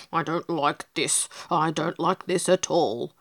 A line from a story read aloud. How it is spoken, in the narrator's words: muttered the pig